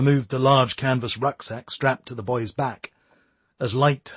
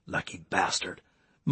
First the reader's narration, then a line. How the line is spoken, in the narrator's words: muttered Ron